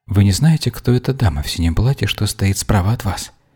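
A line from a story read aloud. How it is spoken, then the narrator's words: Whispered question. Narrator (Russian): шепотом поинтересовалась у мейстера Вера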